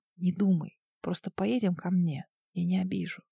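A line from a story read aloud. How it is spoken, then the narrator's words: Soft whisper. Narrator (Russian): просто касаясь моих губ, прошептал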